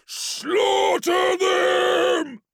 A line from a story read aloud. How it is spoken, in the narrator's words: Threx bellowed, shaking with unfettered wrath and still wreathed in the burning bronze aura of the blood god